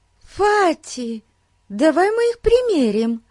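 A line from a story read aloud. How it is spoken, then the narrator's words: Exclaiming. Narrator (Russian): воскликнула Дейзи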